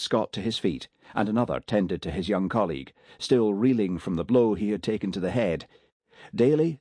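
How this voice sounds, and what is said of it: Usual voice. Nothing is said of it.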